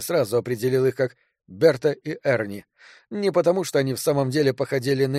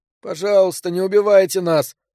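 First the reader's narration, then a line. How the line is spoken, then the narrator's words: Whimpering teenager. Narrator (Russian): прохныкал Берт, подросток повыше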